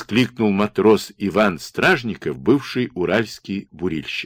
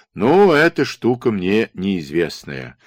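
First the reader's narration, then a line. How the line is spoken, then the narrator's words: Disappointed drawl. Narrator (Russian): разочарованно протянул Слюсарь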